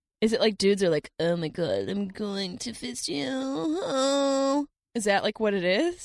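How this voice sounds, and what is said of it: Valley girl voice. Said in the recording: “you sound like a valley girl”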